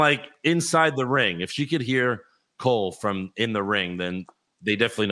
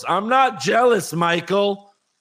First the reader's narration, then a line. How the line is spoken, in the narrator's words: Bayley yells